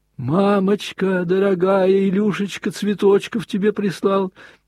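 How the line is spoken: Shouted. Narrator (Russian): прокричал он

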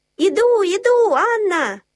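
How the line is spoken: Shouted. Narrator (Russian): закричала я

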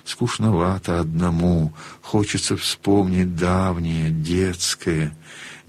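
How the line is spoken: Muffled whisper. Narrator (Russian): он глухим шепотом выговорил

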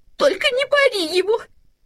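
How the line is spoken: Sobbing. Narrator (Russian): всхлипывала мама Ларсен

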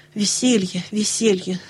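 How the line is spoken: Irritated grumble. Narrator (Russian): с раздражением проворчала Нэнси

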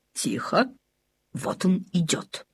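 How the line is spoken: Whisper. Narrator (Russian): прошептал папа Ларсен

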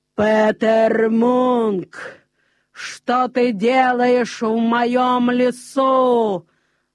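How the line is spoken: Sudden booming giant's voice. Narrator (Russian): вдруг сказал великан громовым голосом

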